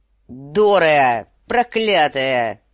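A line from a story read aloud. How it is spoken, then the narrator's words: Roar. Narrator (Russian): взревел сир Джорах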